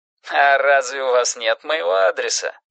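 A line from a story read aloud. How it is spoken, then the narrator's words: Mocking. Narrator (Russian): насмешливо поинтересовался голос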